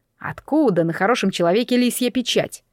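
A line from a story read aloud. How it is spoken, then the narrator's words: Snorting. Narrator (Russian): Мэйлин фыркнула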